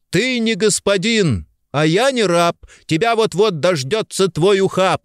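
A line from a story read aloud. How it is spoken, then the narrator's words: Shout. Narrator (Russian): крикнул он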